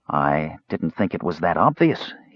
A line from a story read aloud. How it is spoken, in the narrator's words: he said dryly